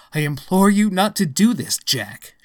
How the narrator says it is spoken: she cried

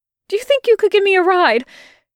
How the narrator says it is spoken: blurted, and his voice came out all falling apart at the seams

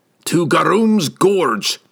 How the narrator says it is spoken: cried

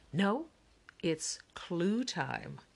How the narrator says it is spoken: CJ said dramatically

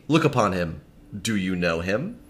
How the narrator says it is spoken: gravely said

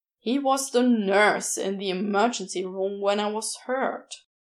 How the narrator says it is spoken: Crowley growled

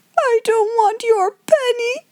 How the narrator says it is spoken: sobbed Lottie

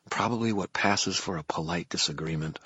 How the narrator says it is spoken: I muttered

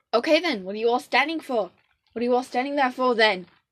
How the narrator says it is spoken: snapped, suddenly so rude and aggressive like a captain should be

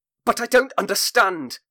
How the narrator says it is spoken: Barry Bolcutt snapped

